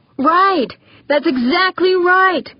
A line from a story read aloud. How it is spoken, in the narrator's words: Mance yelled, excitedly